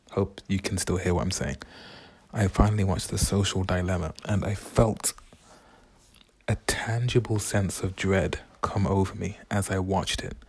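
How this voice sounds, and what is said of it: Speaking very quietly. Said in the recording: “I'm talking so quiet.”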